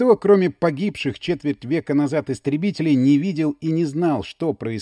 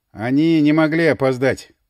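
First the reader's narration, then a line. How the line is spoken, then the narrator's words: Hoarse. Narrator (Russian): хрипло сказал Эдвин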